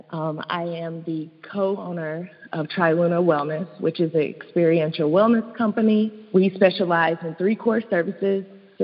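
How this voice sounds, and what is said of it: East Tennessee Southern accent. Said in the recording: “born and raised in East Tennessee, hence the accent.”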